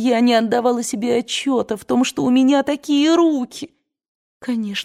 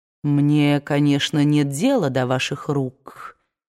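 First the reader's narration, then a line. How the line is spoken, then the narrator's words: Cold statement. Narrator (Russian): холодно сказал Ред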